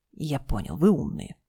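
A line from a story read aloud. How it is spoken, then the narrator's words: Grumbled. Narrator (Russian): буркнул Дима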